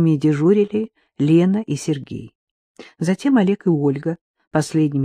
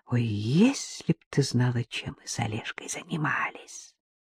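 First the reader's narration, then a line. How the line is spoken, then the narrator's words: Whisper. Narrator (Russian): Ольга шепнула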